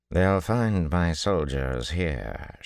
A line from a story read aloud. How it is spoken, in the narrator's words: she drawled